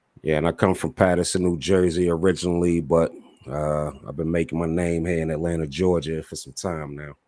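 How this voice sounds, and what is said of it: Smooth deep East Coast accent. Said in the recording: “I love his accent. I love it. That's that East Coast sound. ... He got the smooth Barry White voice.”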